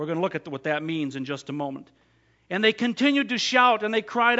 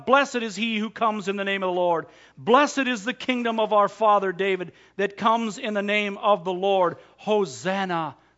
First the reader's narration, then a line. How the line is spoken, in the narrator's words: they shouted in the highest